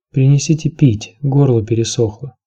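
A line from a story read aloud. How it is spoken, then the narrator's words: Plain. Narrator (Russian): сказала она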